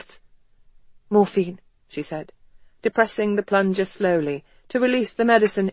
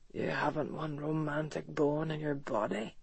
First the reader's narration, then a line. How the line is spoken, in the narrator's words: he muttered